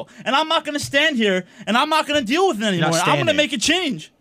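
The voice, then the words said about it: Yelling, loud angry rant. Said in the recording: “Why are you yelling?”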